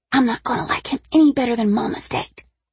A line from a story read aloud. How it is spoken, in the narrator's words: she whispered